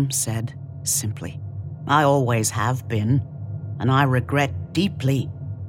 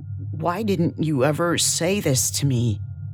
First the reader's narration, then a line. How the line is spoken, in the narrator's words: They asked, their voice little more than a croak